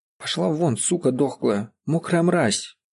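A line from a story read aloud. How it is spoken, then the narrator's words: Barely audible, firm, through teeth. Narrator (Russian): Процедила еле слышно, но уверенно, Бажера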